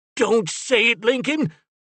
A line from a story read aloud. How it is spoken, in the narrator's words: Finn cried